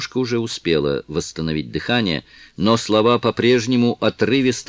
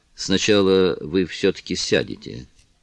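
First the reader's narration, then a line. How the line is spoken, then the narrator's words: Quiet. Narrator (Russian): тихо произнес он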